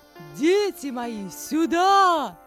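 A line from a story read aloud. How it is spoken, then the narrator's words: Loud call. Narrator (Russian): громко позвала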